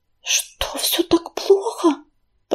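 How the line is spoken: Whispering. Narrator (Russian): прошептала Листочка

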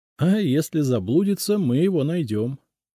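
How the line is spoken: Laughing. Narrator (Russian): рассмеялся я

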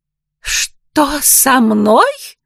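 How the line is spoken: Indignant woman's shriek. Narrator (Russian): возмущенно взвизгнула женщина

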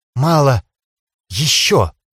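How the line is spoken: Whispering. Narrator (Russian): зашептала Ханиэль

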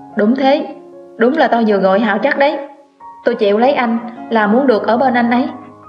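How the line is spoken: Loud, bold, resolute. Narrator (Vietnamese): lấy đâu ra dũng khí, tôi cao giọng dõng dạc

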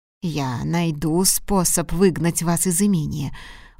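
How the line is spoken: Threatening, through clenched teeth. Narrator (Russian): угрожающе процедил он сквозь зубы

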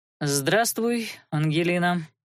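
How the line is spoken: Dry greeting. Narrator (Russian): Сухо поздоровался тот в ответ

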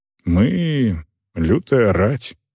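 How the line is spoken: Quiet. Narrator (Russian): тихо сказал Агнар

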